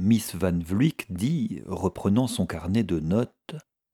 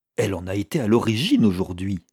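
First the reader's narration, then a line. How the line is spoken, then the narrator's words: Exclaimed. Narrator (French): s'exclama Miss Glyde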